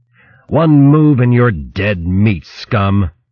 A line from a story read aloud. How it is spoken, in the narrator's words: The warrior roared into her painted face